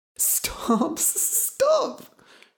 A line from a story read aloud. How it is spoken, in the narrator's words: she cried